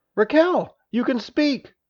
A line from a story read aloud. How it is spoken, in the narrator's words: Dada exclaimed